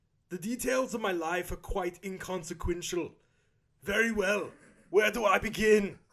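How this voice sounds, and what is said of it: Arnold Schwarzenegger impression, German accent. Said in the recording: “a German accent ... I gotta get into a German accent. I gotta think German. ... I'm just gonna do it as Arnold Schwarzenegger, which is not German at all. ... That's Austrian.”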